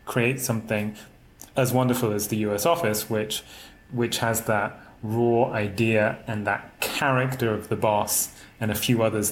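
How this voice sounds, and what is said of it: Speaks with an official-sounding accent. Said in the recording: “With your accent, it all ... sounds very official.”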